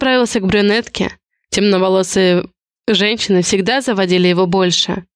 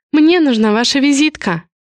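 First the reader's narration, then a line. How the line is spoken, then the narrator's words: Soft. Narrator (Russian): мягко произнесла она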